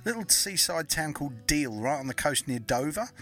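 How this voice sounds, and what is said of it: English accent from Kent. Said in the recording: “I thought my accent was very strong ... born and bred in Kent ... In England”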